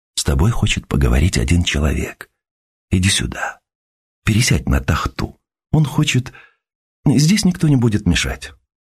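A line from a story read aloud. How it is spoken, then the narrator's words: Soft, quiet. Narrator (Russian): Нина сказала тихонько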